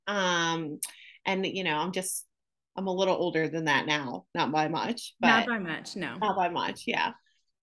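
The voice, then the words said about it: Upstate New York accent. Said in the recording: “I hear all upstate New York when you talk... I hear all New York when you talk”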